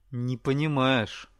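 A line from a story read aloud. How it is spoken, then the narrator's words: Through gritted teeth. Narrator (Russian): цежу я сквозь зубы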